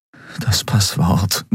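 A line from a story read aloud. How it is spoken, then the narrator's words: Concentrated murmur. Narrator (German): murmelte er, darauf konzentriert sich zu erinnern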